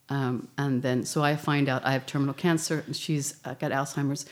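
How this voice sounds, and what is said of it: American English accent. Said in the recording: “as you can tell by my accent, I'm from the United States.”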